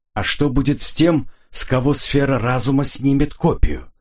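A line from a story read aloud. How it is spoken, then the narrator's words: Plain question. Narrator (Russian): спросил граф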